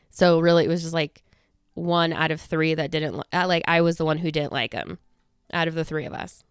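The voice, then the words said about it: Breathless, fast excited speech. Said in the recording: “I get so out of breath when I'm recording a podcast episode ... I can't breathe ... I can't catch my breath or I'm running out of breath”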